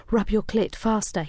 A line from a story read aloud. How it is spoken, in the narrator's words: he whispered